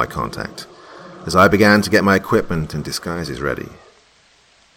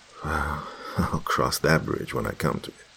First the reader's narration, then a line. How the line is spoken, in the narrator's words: chuckled to myself and said